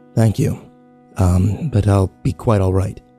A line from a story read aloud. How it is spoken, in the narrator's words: said in his gravelly voice